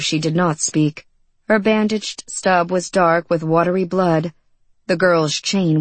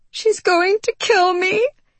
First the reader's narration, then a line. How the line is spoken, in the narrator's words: sobbed the young girl